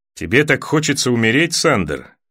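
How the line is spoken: Plain. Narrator (Russian): спросил Торос

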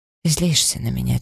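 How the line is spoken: Quiet. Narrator (Russian): тихо произнесла

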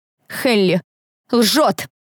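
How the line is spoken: Loud and confident. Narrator (Russian): Мой голос звучал громко и уверенно

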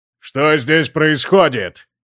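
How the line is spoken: Booming roar. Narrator (Russian): Зычным голосом проревел Бьорн Острозубый

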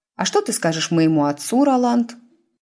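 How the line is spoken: Sugary sweet inquiry. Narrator (Russian): Сладеньким голосом осведомилась Тиффани

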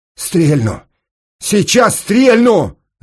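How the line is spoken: Shouting. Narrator (Russian): закричал Сенька

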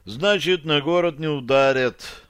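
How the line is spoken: Sigh. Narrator (Russian): вздохнул Лутпольд Ухтырец, староста Житавы

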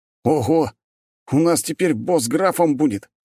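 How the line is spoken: Excited exclamation. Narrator (Russian): снова воскликнул тот же командир

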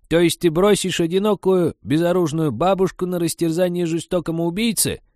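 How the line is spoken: Weak, sorrowful voice. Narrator (Russian): слабым горестным голосом уточнила она

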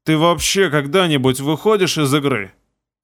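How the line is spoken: Muttering grumpily. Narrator (Russian): Пробурчал я

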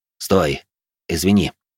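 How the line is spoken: Gruff mutter. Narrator (Russian): Буркнул я

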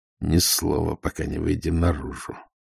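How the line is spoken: Whispered through teeth. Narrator (Russian): сквозь зубы прошептал Ваймс

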